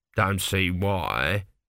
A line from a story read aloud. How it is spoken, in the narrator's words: grumbled an elderly priest at the back of the crowd